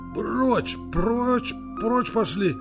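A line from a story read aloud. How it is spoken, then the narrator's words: Heavy wheeze. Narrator (Russian): Тяжело прохрипел Андрей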